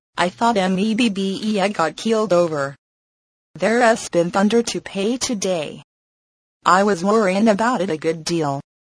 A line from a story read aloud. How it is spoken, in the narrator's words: He continued in a monotonous voice